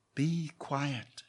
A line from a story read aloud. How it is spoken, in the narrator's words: she whispered